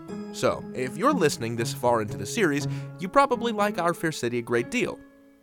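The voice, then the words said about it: Silky, somewhat nasal Midwestern radio voice. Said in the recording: “my silky, somewhat nasal Midwestern radio voice”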